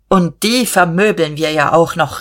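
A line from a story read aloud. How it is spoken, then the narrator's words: Calling out. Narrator (German): rief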